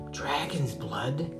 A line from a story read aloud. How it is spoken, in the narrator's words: gasped Alfie